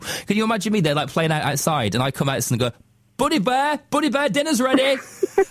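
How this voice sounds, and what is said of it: Northern English Lancashire accent. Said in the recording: “in my northern accent,... We can't call our children these stupid names in Lancashire.”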